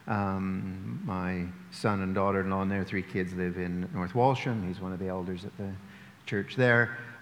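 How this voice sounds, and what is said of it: Canadian accent. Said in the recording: “The accent's Canadian”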